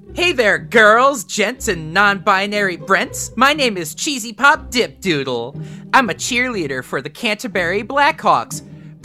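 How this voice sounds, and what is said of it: Put-on cheerleader character voice. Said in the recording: “I gotta do a voice for this one.”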